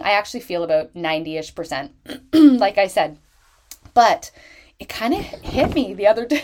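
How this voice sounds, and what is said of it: Sick, sore-throat voice. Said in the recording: “I don't know if you can tell from my voice ... I felt like this kind of sore throat”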